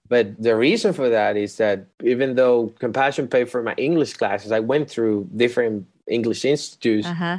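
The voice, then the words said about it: Non-native English accent, mixed. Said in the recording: “You can tell I have an accent. ... I do remember having a Russian professor. I had a Dominican professor and an Asian professor. So my English is a mix”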